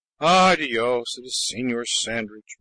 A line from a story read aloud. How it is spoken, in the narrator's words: mumbled the old man